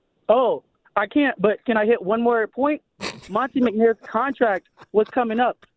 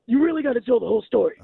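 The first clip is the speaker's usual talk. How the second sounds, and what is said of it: Imitates another person's voice. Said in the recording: “could you do a Doc Rivers impression? ... Okay, I'll try.”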